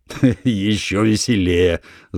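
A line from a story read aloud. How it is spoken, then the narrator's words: Loud laughter. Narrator (Russian): захохотал Санек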